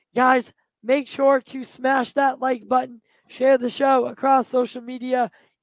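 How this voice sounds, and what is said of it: Tired, strained, fading voice. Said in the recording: “I'm losing my voice ... I'm so tired”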